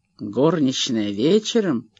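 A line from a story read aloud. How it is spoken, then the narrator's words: Sarcastic voice. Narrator (Russian): язвительно прозвучал его голос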